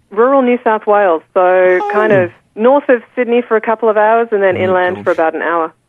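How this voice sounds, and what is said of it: Australian accent. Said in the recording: “I love that New Zealand accent... I love her accent as well... this is the Australian accent.”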